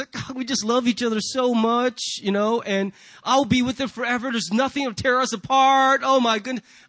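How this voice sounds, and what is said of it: Put-on Southern accent. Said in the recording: “I don't know why I'm speaking a Southern accent, but just when you're happy, a Southern accent just comes out of you”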